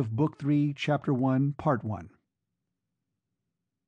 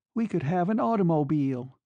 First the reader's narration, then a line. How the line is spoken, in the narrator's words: exclaimed Dot, in a final burst of triumph